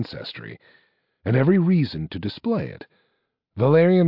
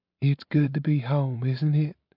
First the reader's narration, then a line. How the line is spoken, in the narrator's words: said his mother, her voice thin, but stronger than it had been in many years